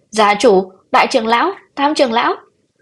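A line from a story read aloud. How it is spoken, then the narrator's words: Panicked scream. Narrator (Vietnamese): Bạch Nhữ Nghi thất thanh hét lên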